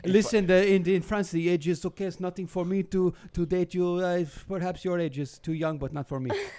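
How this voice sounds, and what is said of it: Put-on French accent. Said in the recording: “Goddamn, it's the accent. ... I can pull it off, the accent, right?”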